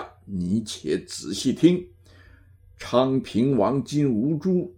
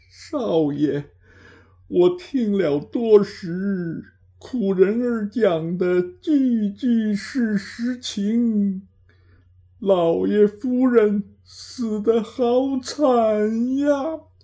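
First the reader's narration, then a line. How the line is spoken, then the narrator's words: Sobbing uncontrollably. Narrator (Chinese): 失声哭不停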